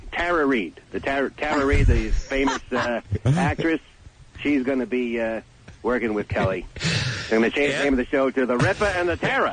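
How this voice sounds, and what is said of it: Imitates another person's voice. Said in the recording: “doing a Regis impression. Really good Regis impression,”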